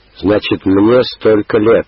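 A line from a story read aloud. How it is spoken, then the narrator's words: Joyful announcement. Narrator (Russian): радостно объявила она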